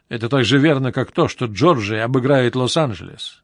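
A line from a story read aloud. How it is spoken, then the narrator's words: Plain. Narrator (Russian): ответил он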